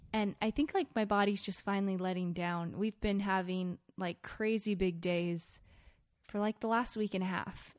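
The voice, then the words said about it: Voice affected by a cold. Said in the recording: “I have a little bit of a cold. I don't know if you guys can tell, but I can definitely tell while I'm talking.”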